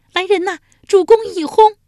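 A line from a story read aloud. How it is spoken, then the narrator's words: Repeated shouting. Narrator (Chinese): 连喊数遍无人应腔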